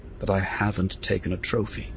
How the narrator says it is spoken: said just above a murmur

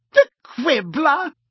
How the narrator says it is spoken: she said, cackling

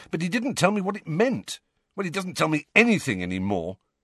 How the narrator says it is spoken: said Harry impatiently

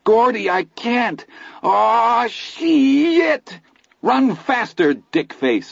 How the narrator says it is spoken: I bellowed

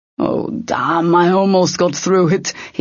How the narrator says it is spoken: said, chuckling

